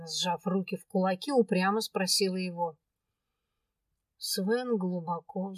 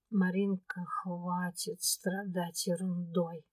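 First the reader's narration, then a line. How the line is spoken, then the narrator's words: Weary request. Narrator (Russian): Устало попросил он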